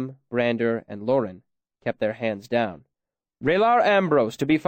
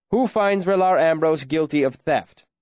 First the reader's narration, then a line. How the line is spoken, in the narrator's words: The Chancellor called out